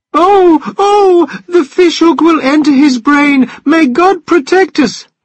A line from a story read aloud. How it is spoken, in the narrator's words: cried the old wife, hiding her head in her hands